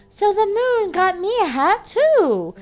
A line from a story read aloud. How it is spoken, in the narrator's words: exclaimed Bear